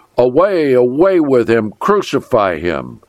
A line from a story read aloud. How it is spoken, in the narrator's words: they cried aloud